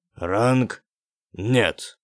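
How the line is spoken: Imposing announcement. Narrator (Russian): объявил Джан Тань внушительным тоном

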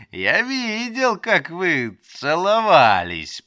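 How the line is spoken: Giggling, teasing. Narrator (Russian): повторил хихикая и наслаждаясь ее смущением

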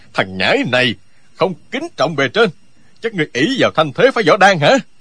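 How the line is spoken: Hot-tempered loud shout. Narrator (Vietnamese): Lão vốn tính nóng lửa, bèn quát to

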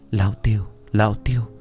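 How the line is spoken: Muttering. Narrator (Vietnamese): Anh Tuệ, lẩm bẩm

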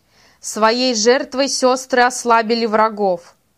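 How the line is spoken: Shout to everyone nearby. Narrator (Russian): крикнул Танатал всем, кто находился поблизости

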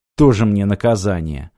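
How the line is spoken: Sighing. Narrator (Russian): вздохнул Мартин

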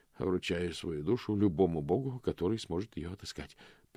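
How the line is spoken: Mutter. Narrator (Russian): пробормотал он

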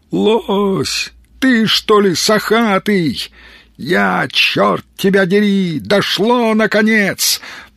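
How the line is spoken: Joyful hopeful shout. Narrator (Russian): надежда на то, что, возможно, пришла добрая весть, заставила радостно крикнуть

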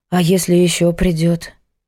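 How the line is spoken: Sighing. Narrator (Russian): Вздохнула Митрофанова

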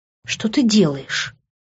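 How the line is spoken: Convulsive gasp. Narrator (Russian): Судорожно выдохнула

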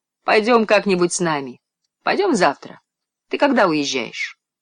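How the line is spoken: Girl, laughing. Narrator (Russian): Девочка снова засмеялась и сказала

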